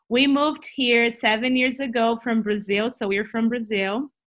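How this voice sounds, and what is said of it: Brazilian-accented English. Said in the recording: “You will listen to my funny accent ... Brazilian accent”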